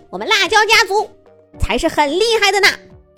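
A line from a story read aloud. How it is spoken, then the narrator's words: Loud fiery shout. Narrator (Chinese): 大嗓门又脾气火爆的辣椒苗喊道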